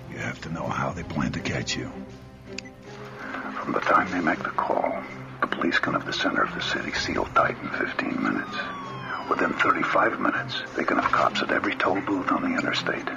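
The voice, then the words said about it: Odd mixed Boston Irish accent. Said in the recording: “I don't know what that accent is. It's... like Middle Earth Boston Irish something.”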